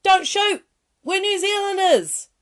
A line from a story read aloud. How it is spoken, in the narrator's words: they yelled out